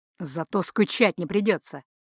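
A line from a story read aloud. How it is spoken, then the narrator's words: Snorting reply. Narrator (Russian): хмыкнул в ответ начальник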